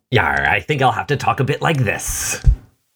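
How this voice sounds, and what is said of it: Pirate voice. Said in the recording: “have like a pirate voice that you're gonna do?”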